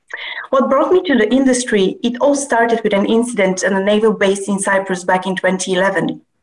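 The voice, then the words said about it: Eastern European accent. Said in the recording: “As you can tell from my accent, I was raised in Bulgaria, Russia, and Cyprus.”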